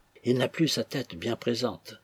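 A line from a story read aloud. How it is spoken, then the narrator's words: Said quietly. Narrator (French): dit tout bas Amy à Dobbin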